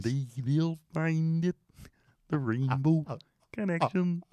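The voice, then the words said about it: Kermit the Frog impression. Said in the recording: “Kermit ... the Frog ... just doing your ... voice”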